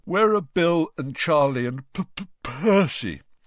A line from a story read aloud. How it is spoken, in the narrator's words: said George, failing to stifle a huge yawn